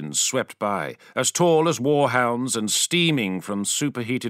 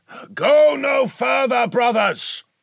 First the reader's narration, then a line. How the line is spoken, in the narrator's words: shouted, and his vox-amplified voice echoed around the hall